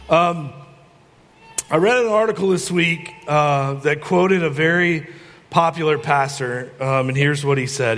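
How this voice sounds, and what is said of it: Stuffy, congested, muffled voice. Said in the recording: “I've got a cold today, so I'm probably going to sound like I'm in a well.”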